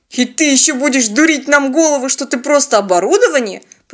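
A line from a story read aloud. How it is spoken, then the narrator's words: Grumbling. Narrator (Russian): проворчал Теодор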